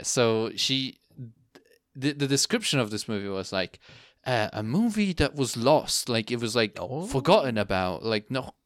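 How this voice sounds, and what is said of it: Speaks with an accent. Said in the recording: “you're laughing at my accent again?”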